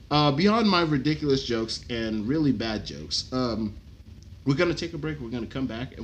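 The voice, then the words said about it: Strained, hoarse voice. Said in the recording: “losing my voice”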